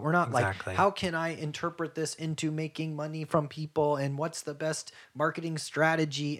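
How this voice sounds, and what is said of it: Robotic, mechanical voice. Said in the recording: “is that your robot voice? ... Yeah, that is my robot voice.”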